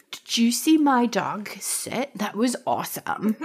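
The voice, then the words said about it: Weird put-on accent. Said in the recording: “it's like a weird accent ... That was my offensive accent”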